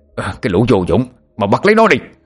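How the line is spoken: Old man, angry shout. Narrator (Vietnamese): Lão Ngạn giận dữ hét lên

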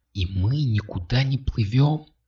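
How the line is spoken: Soft gasp from behind. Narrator (Russian): тихо ахнула сзади Катя

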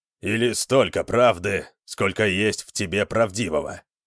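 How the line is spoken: Grumbling mutter. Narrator (Russian): пробурчал Скирон

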